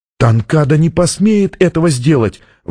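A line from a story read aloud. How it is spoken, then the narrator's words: Exclaimed. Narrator (Russian): воскликнула она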